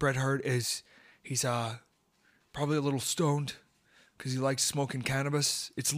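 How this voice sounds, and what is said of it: Usual voice. Nothing is said of it.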